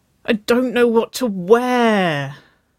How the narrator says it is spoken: she whined

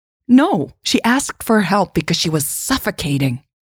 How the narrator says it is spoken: Jade snapped

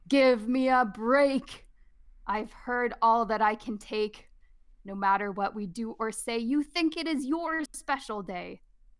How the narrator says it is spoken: Lion roared

